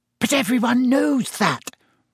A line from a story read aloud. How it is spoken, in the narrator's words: said Hermione in a loud whisper